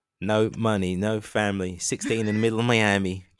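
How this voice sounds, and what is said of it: Put-on Australian accent. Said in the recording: “Do you like my Australian accent?”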